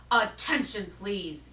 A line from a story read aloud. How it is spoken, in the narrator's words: he said in a loud, firm voice